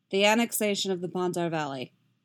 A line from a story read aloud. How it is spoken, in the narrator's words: Yasgir says flatly